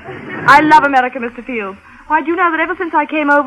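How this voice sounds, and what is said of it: English accent. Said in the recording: “my English accent ... One would never guess you were English unless they heard you talk.”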